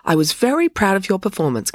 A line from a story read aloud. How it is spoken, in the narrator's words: continued Loretta brightly